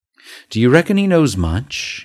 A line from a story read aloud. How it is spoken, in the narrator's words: he asked anxiously